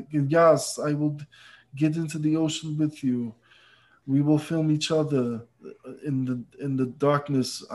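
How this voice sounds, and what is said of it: Poor Werner Herzog impression. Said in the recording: “It's a terrible Werner Herzog. It's a terrible impression.”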